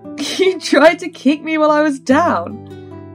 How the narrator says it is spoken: Bix giggled

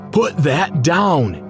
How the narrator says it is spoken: shouted Dad at the top of his voice

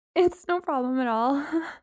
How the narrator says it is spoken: I said, my attempt at a laugh sounding more like a whimper

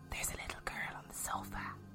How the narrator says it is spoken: Lil whispered

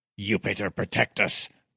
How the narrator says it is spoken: one of the soldiers at the rail muttered

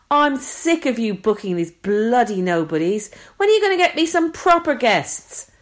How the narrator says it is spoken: But the presenter is still shouting

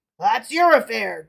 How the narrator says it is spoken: growled the bandit

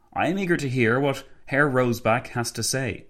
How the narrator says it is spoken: Renner said

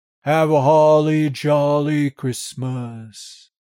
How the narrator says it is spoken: John sings merrily in his dry, grim voice

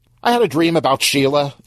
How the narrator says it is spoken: Stan blurted out

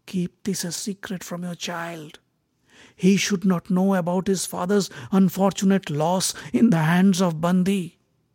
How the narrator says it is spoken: Uddalak whispered to her ears

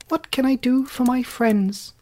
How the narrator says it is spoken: the Queen herself, who asked, in her squeaky little voice

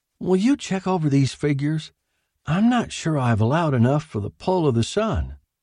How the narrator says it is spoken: Willie said hesitantly

